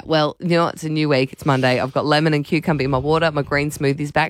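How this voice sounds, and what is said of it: Voice with a head cold. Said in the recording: “As you can hear, I have a cold.”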